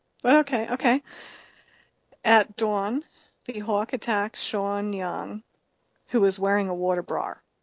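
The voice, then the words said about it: New York accent on certain words. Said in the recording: “my New York accent that I slip into at certain words”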